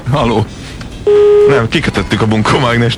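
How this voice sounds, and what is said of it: Disguised, altered voice. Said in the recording (Hungarian): “elváltoztatott hangon”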